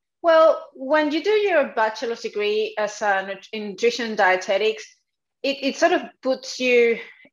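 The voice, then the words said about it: Strong Spanish accent. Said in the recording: “I have a strong accent and my Spanish”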